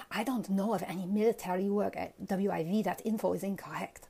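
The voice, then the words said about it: Bad put-on Chinese accent. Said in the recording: “Was that Chinese? ... That accent was really bad.”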